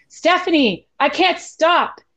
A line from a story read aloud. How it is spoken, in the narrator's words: Daniel hollered at me